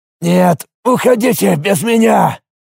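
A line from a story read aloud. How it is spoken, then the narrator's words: Growl. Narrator (Russian): прорычал высокий парень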